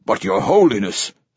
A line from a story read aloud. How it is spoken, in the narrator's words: says Lourdesami, his voice urgent